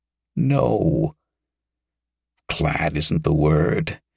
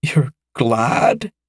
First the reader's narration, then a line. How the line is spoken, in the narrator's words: exclaimed